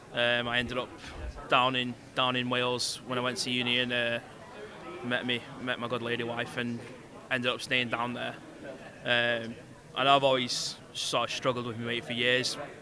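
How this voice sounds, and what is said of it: Manchester English accent. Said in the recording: “as you can tell from my accent, this is actually my neck of the woods. I'm a Manchester boy”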